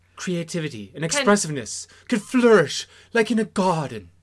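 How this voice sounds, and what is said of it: Put-on accent. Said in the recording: “What accent was that? ... It was an accent.”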